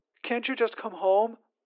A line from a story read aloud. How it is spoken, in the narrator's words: Artie had asked again, her eyes pleading